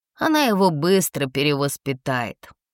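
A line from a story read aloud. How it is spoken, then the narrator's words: Sleepy son's snort. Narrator (Russian): хмыкнул проснувшийся сын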